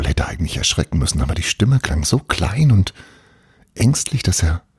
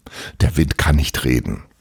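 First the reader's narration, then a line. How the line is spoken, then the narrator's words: Plain. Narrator (German): sagte Paul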